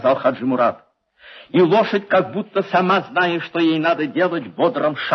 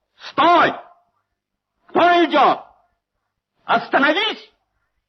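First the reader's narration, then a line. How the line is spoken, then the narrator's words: Shouted challenge. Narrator (Russian): крикнул голос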